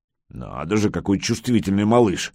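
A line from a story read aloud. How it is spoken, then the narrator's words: Grumbling. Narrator (Russian): ворчал мастер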